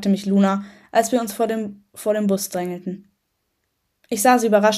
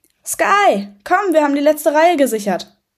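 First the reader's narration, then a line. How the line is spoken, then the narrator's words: Calling out. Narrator (German): rief er mir zu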